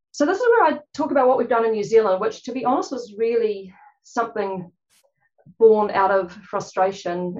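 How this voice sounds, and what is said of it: Fast speech, New Zealand accent. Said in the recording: “I'm talking a bit fast. It's a jolly Kiwi accent too”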